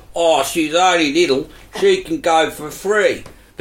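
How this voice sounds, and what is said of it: New Zealand accent. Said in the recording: “do his Kiwi accent”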